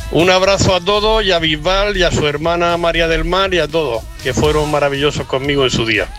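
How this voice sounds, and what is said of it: Regional Spanish accent. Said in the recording (Spanish): “se nota que es de la misma tierra que Bisbal, ¿verdad? Por el acento.”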